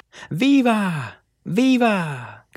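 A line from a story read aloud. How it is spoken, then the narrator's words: Men shouting. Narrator (Spanish): gritaron los hombres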